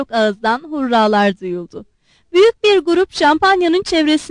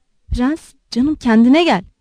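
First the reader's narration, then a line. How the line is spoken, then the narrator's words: Whispered. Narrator (Turkish): diye fısıldadı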